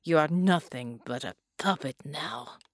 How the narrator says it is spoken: Bela muttered

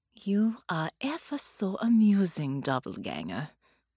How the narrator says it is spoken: Baron purred

